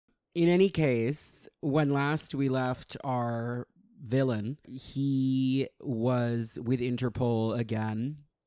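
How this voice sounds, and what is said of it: Hoarse, strained voice. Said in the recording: “my voice has bounced back a little bit. I was like, my Irish accent is going to be even worse because I can't talk ... you have laryngitis”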